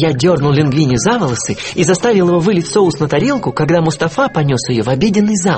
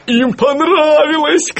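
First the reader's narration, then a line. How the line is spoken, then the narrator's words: Shouting. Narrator (Russian): кричал он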